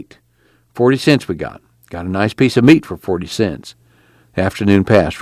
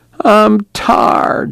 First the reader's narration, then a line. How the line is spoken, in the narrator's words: she whined